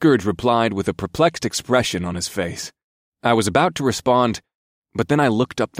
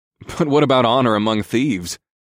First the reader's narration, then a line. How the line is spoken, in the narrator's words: snorted